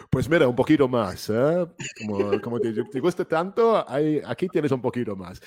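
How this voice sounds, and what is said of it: Spanish spoken with British accent. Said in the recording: “my British Spanish accent ... You sound like an actor, like Gustavo Fring.”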